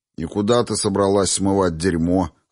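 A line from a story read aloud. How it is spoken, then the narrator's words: Snort. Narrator (Russian): хмыкнул я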